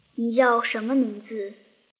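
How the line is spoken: Cold question. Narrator (Chinese): 医生沃克 冷冷地问

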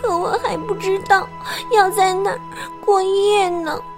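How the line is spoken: Quiet mumble. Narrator (Chinese): 苏菲小声嘟囔着

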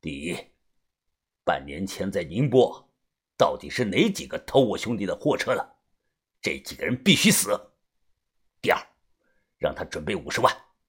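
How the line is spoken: Cold voice. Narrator (Chinese): 高斌他冷声的说

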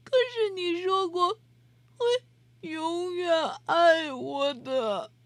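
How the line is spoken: Crying. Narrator (Chinese): 阿丽哭着说

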